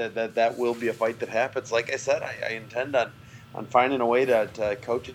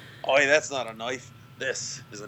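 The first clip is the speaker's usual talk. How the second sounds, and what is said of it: Put-on Australian accent. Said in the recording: “You just like the accent, don't you? ... Oh, I love the accent.”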